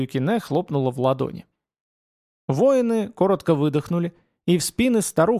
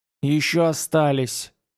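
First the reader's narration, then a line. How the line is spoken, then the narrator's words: Muffled, hollow. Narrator (Russian): глухо ответила учительница из дома девичества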